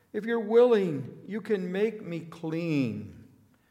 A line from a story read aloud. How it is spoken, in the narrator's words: begged him on his knees